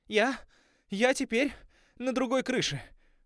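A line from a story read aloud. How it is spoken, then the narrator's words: Breathy exhale. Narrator (Russian): выдохнула Сьерра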